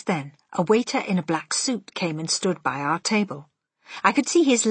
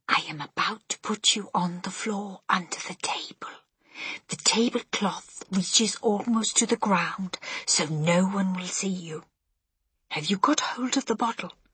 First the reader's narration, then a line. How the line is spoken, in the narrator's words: whispered